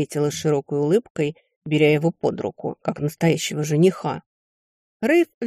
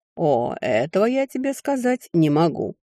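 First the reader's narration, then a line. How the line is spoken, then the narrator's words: Wry snort. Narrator (Russian): хмыкнул он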